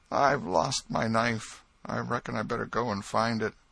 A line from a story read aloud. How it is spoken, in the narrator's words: Joe said feebly